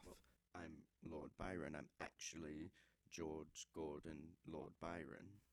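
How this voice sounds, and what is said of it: Speaks with a put-on accent. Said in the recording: “you don't normally have an accent”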